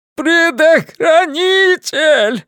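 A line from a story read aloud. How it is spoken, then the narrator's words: Howling. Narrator (Russian): взвыл Стэннер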